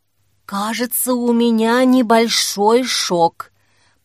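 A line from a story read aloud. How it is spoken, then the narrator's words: Whispered. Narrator (Russian): прошептала Вафля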